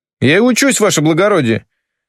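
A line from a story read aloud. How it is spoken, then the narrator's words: Offended sniffing. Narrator (Russian): Обиженно сопит Конопатый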